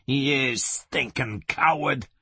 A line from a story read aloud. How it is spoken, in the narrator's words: he hissed